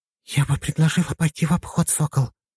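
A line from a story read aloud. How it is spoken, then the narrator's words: Very quiet whisper. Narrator (Russian): очень тихо прошептала Лена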